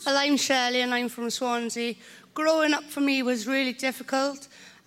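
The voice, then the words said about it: Welsh Swansea accent. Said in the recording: “This is the best accent you will ever hear in the country... she's from Swansea”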